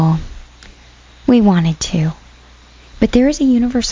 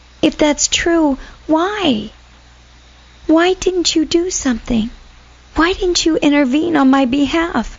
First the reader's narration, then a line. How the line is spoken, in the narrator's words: Rachel pleaded